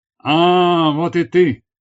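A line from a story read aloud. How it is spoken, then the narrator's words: Shout. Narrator (Russian): закричал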